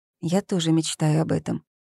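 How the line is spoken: Quiet speech. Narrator (Russian): тихо произнесла Зои

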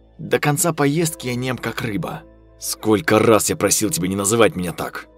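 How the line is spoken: Snapping, then calmer. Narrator (Russian): Огрызнулся Виктор и уже более спокойным тоном продолжил

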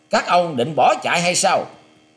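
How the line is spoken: Loud shout. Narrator (Vietnamese): Kê Khang quát to lên

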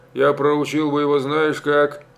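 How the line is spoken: Joyless chuckle. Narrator (Russian): Степан Солдатеевич невесело хохотнул

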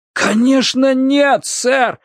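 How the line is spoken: Pained exclamation. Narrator (Russian): с болью в голосе воскликнул Росс Уилкокс

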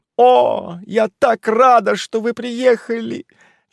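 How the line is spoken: Near sobbing. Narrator (Russian): Чуть не рыдала

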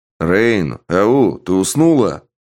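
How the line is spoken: Loud man. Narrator (Russian): громко сказал мужчина

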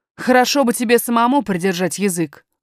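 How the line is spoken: Rude nanny. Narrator (Russian): грубо сказала няня, грубо

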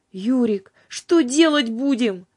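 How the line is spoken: Pleading. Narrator (Russian): взмолилась Юлька

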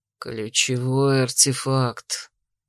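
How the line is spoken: Quiet, through gritted teeth. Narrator (Russian): не выдержав, тихо процедил Дрейк

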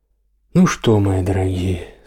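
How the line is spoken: Calm speech. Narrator (Russian): спокойно проговорил отец Петр в тишине

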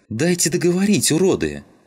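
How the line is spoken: Fierce unchildlike yell. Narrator (Russian): заорала совсем не по-детски Родька

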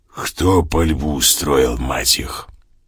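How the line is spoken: Hoarse inquiry. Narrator (Russian): сизая небритая харя и сипло поинтересовалась

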